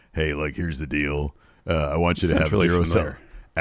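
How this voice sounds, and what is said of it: Imitates another person's voice. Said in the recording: “I'm doing my best Triple H impression. I don't do a very good one.”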